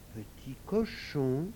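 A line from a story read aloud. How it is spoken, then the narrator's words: Weak voice. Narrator (French): demanda Malika d'une voix faible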